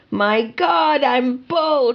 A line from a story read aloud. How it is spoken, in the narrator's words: I screamed